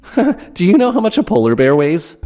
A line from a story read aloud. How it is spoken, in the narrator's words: asked, with that obnoxious giggle